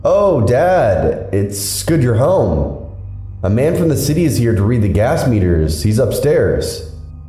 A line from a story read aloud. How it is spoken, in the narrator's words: She called out loudly into the house